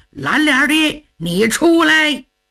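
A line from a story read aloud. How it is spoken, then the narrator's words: Furious shouting. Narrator (Chinese): 花公吉一看老程回归本队，可气坏了，叫喊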